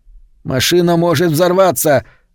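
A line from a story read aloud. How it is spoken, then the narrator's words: Sudden shout. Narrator (Russian): закричал вдруг Вес на Соланж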